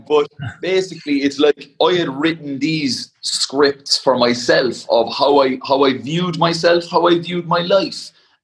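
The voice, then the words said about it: Cork Irish accent. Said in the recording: “It's probably the Cork accent as well.”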